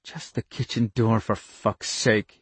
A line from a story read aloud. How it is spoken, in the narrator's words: he muttered raggedly